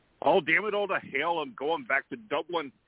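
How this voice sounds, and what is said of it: Poor put-on Irish accent. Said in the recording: “horrible imitation of an Irish accent.”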